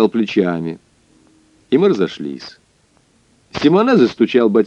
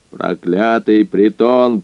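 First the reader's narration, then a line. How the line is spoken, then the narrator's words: Hoarse rasp. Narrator (Russian): прохрипел он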